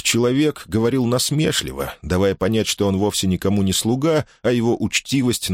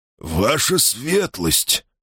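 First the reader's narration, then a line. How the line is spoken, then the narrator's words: Stammering mumble. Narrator (Russian): пробормотал Хэксби, запинаясь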